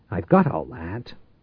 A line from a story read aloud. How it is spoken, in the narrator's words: Tate said sharply